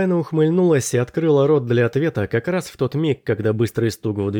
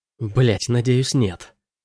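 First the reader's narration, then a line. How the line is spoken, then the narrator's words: Whispered reply. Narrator (Russian): прошептала Элайна в ответ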